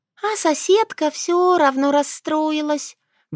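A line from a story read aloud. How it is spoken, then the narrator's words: Sighing. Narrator (Russian): вздохнула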